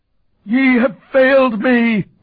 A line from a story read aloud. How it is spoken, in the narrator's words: he howled